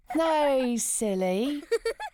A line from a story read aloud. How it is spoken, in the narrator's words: laughed Billy